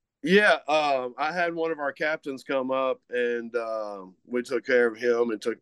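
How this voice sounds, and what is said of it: Usual voice. Nothing is said of it.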